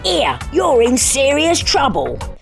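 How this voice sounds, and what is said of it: Bad imitation of another person's voice. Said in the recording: “that was a really bad impression of Jason Statham”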